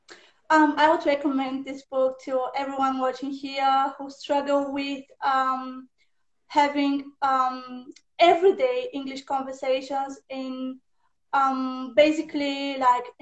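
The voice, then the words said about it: Non-native English accent. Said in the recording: “reduce a little bit my native accent, but not 100%... we can sound more British-like, but not like a British or American”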